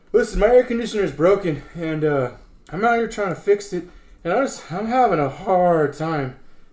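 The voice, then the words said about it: Slightly out of breath speech. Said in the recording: “Sounds like you're a little out of breath.”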